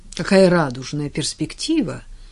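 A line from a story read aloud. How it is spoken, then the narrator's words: Dry, with hidden smile. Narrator (Russian): сухо бросила тетя Энн, хотя на ее лице играла улыбка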